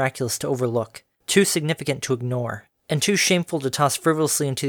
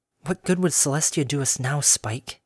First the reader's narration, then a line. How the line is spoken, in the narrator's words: She murmured silently to the air